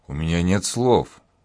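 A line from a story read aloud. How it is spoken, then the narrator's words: Pilot breathing out words. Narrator (Russian): выдохнул летчик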